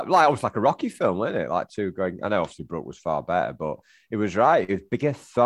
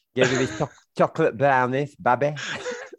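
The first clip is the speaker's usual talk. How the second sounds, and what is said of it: Imitates another person's voice. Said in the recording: “That's how he said. That's his good impression of him... It's better than every other impression you've done on this podcast”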